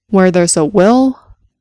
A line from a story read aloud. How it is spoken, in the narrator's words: Cordelia replied firmly